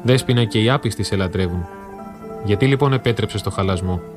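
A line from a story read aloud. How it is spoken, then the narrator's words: Cracked, tearful chanting. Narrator (Greek): με ραγισμένη φωνή που μάταια προσπαθούσε να την κάνει σταθερή και με δακρυσμένα μάτια έψαλε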